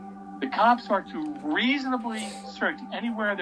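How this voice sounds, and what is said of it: Usual voice. Nothing is said of it.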